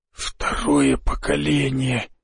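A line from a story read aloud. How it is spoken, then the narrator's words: Whisper breaking silence. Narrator (Russian): прошептал он, нарушая тишину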